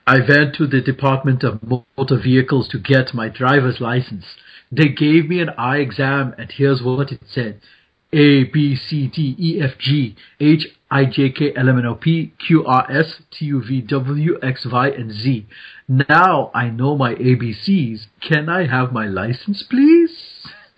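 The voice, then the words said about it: Put-on German accent. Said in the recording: “Can I do my German accent? ... my apologies to the German speaking world”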